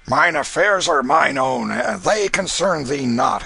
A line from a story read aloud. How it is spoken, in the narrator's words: answered Canty roughly